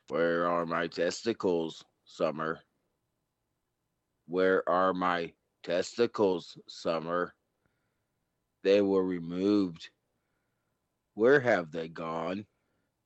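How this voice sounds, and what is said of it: Deep robotic character voice. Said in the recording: “you had that deep, like... I had the robot voice.”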